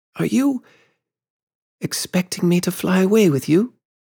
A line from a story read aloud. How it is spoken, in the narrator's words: she said, faltering